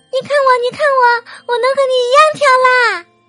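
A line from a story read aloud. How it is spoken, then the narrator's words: Excited shout. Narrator (Chinese): 他对妈妈叫道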